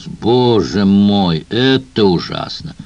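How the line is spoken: Loud. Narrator (Russian): Лумис громко произнес

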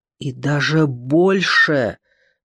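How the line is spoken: Furious hiss into phone. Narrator (Russian): прошипел Сол в трубку не менее яростно

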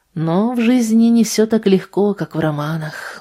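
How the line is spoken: Sighing. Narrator (Russian): вздохнула Анна

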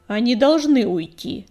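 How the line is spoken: Sharp bark. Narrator (Russian): резко рявкнула Щербатая

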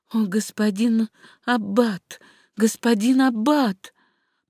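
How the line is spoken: Trembling, flustered whisper. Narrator (Russian): госпожа Вальмар увидела Пьера, ее кинуло в дрожь, и она в замешательстве прошептала

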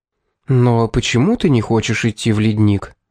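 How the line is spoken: Gentle question. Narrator (Russian): спросила мягко

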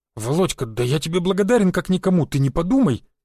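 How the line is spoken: Rapid embarrassed chatter. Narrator (Russian): затараторил Валек, густо покраснев

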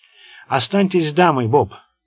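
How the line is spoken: Plain. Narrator (Russian): сказал лейтенант

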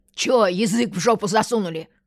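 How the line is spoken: Rude bark. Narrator (Russian): грубо рявкнула Анька

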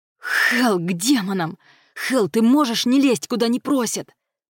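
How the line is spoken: Growling. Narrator (Russian): прорычал стилет

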